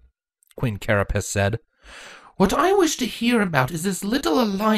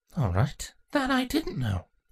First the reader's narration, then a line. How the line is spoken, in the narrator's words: Insecta muttered